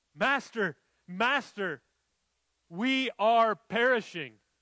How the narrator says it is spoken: they scream at him

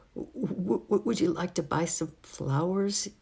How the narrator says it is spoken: squeaked

